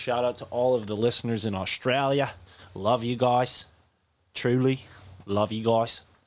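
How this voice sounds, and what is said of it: Poor imitation Australian accent. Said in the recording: “this dumb accent. This really shitty Australian accent I just tried to do”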